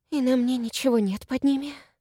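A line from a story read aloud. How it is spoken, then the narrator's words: Whispered. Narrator (Russian): прошептала она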